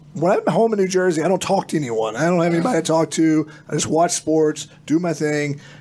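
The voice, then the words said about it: Hoarse, strained voice. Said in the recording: “which is why I do not have a voice ... lost my voice”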